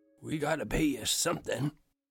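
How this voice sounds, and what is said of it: Faint, weak elderly man's voice. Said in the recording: “He insisted in a faint voice.”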